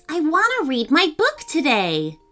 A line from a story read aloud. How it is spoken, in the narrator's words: cried Mackenzie